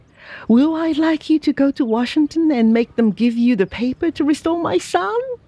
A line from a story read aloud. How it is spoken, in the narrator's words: cried he